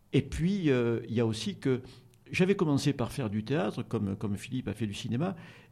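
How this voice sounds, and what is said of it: Slight Provençal French accent. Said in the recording (French): “j'ai un léger accent provençal qui fait un peu rire”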